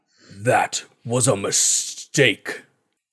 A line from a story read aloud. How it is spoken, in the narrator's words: growls out